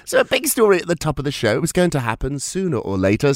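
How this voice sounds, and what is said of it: Croaky voice from a cold. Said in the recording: “I have a little bit of a cold today... so if I'm a bit croaky”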